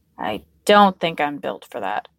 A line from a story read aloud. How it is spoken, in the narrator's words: he grumbled